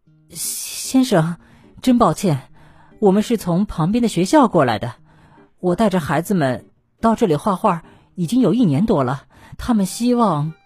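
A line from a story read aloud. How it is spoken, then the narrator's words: Slightly trembling voice. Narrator (Chinese): 声音有些颤抖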